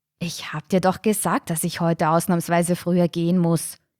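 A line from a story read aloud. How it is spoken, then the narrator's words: Angry hiss. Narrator (German): zischte wütend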